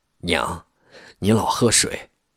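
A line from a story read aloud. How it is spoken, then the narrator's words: Smiling. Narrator (Chinese): 焦一路笑笑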